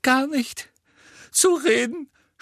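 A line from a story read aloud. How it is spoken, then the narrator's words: Sobbing. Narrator (German): schluchzte sie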